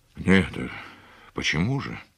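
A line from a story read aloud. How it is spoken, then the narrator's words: Dull, forced-out words. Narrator (Russian): глухо выдавил из себя Андрей Семенович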